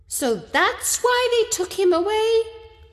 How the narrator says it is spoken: I exclaimed

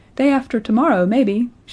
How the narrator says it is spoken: she would reply, laughing

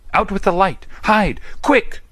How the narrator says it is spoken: cried John

